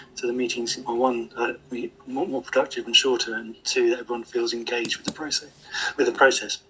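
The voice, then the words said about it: Strained, fading hoarse voice. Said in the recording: “I'm losing my voice today.”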